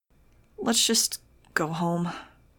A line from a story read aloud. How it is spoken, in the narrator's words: I said wearily